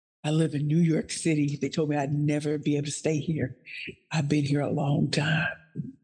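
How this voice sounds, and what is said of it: St. Louis, Missouri accent. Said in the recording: “Still have an accent from St. Louis, Missouri.”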